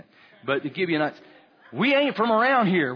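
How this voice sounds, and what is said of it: Put-on Bladen County accent. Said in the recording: “I don't know why they have a Bladen County accent.”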